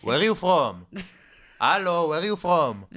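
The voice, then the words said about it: Put-on Israeli accent. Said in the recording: “can you do the Israeli accent?”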